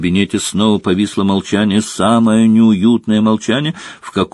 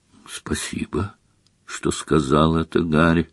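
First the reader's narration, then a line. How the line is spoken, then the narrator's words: Quiet reply. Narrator (Russian): негромко откликнулся Дамблдор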